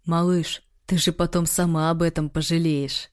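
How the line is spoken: Hoarse whisper, ominous. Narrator (Russian): хриплый голос, почти на ухо прошептал, словно приговор

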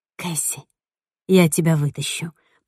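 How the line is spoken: Whisper. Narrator (Russian): прошептала я

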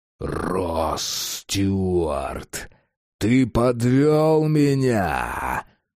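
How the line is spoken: Furious roar. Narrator (Russian): взревел незваный гость

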